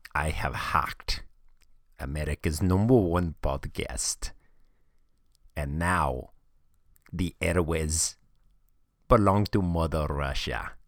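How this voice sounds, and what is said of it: Exaggerated bad fake Russian accent. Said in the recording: “that might be the worst Russian accent that I've ever heard ... I take Khabib Nurmagomedov and join it with a little Borat and I come up with this accent”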